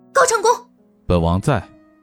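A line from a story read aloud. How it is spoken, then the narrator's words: Startled shout. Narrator (Chinese): 云溪才如梦初醒般，朝着高长恭喊道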